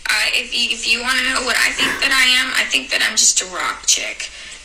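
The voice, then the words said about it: Strong Napanee Ontario accent. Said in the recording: “she's so nappany, man ... Her accent is so, comes out so hard in that. She's from Napanee, Ontario”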